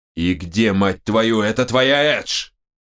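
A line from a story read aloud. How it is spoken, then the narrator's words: Barking. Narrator (Russian): рявкнул он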